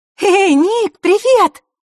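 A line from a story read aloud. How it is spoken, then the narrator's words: Joyful shout. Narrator (Russian): радостно выкрикнула Василиса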